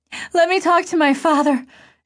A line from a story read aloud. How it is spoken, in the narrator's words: she begged